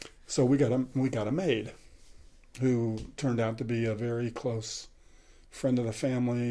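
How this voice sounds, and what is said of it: Usual voice. Nothing is said of it.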